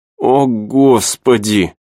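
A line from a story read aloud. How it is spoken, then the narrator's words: Moan. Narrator (Russian): Она застонала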